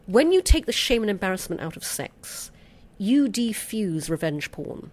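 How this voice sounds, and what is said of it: British accent. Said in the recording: “I'm noticing you have an accent ... my British accent”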